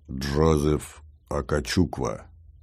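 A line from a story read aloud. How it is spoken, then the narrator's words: Low pleasant voice. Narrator (Russian): сказал низким красивым голосом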